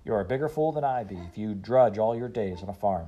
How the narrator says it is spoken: said

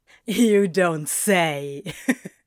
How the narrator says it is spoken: Crowley chuckled

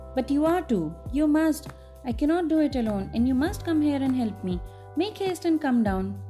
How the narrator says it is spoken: she called again in an urgent voice

